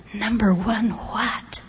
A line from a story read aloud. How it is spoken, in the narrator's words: Something really devious inside of me wanted so badly to whisper